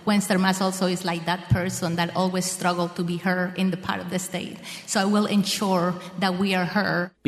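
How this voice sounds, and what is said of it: Speaks with a foreign accent. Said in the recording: “As a person that has an accent”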